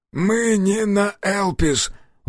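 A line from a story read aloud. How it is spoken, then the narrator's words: Breathed out. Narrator (Russian): выдохнул он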